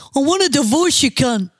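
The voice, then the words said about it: Exaggerated put-on accent. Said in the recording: “she puts on the accent? ... Wasn't like me when I talk like this.”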